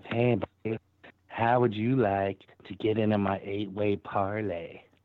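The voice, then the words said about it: Put-on character voice. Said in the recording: “I miss ... talking in his Derek voice.”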